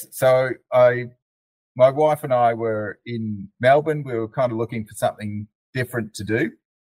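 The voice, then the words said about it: Mild Australian accent. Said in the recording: “I have an Australian accent. ... It's not a very strong one.”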